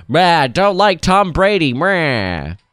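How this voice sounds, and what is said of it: Jokey disinterested sports-fan impression. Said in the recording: “I'll do my best 5-second interpretation ... That's my Super Bowl impression.”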